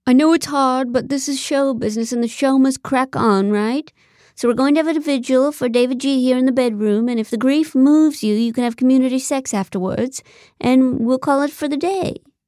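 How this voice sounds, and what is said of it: Fake, cartoonish British accent. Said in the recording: “using a surprisingly fake British accent ... He truly sounded like a cartoon chimney sweep ... convincing accent?”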